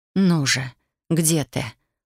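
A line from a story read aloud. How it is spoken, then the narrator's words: Whispered. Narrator (Russian): прошептала я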